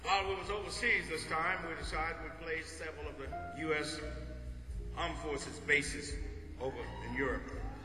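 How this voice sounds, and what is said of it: Mississippi Southern American accent. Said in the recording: “That's my Mississippi accent for Bosnia.”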